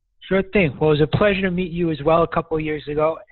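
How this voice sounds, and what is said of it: Brooklyn accent. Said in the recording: “I do mindfulness consulting all over the country with a Brooklyn accent.”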